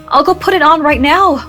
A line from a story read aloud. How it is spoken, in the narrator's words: Myra cried